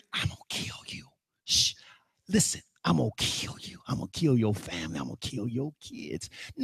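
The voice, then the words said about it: Menacing whisper as a character. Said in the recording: “Satan's going to be sitting there whispering”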